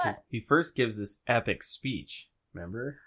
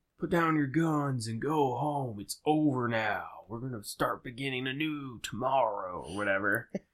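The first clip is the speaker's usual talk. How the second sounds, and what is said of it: Slow-talking imitation of a TV character. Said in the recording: “You're a really good Rick impersonator... He's got to talk really slow.”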